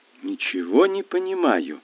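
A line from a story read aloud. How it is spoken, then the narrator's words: Confused mutter. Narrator (Russian): растерянно пробормотала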